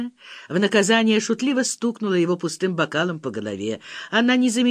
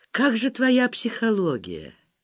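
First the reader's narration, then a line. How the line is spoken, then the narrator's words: Quiet question. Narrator (Russian): Петров тихо спросил Валю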